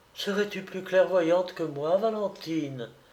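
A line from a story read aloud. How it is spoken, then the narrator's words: Murmured. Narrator (French): murmura madame de Givreuse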